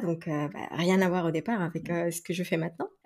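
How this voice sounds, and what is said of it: Slight Mexican accent in French. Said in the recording (French): “j'entends un petit accent dans ta voix ... je suis mexicaine ... il y a encore le petit accent qui est là”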